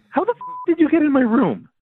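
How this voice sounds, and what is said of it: Upset, agitated tone. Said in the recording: “You sound upset.”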